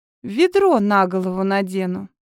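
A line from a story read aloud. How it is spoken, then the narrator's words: Gloomy promise. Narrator (Russian): мрачно пообещала я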